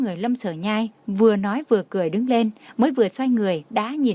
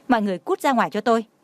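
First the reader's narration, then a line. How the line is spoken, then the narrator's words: Angry. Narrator (Vietnamese): Trang Hạo Nhiên tức giận nói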